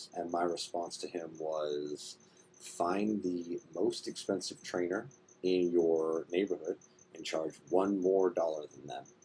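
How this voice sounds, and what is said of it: Whispering. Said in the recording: “I'm whispering, sorry, I'm trying not to wake up my family”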